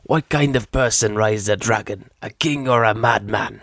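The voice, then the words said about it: Tormund impression. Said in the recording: “that's my Tormund impression.”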